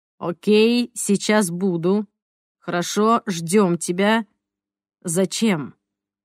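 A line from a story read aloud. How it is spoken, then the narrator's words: Calm voice. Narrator (Russian): Голос Сантос звучал спокойно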